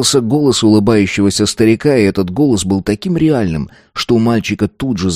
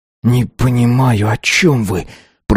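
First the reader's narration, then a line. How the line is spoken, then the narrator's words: Boy hissing through teeth. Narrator (Russian): прошипел мальчик сквозь зубы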